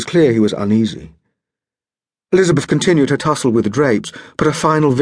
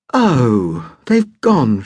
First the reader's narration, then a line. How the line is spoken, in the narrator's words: sighed